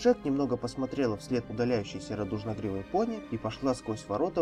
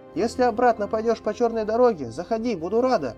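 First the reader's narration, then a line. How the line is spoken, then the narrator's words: Calling after someone. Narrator (Russian): крикнула ей вслед Эй-Джей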